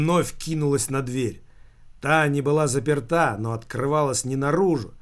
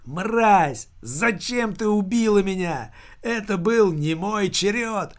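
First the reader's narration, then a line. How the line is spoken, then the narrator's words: Shrieking. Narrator (Russian): визжала Кристина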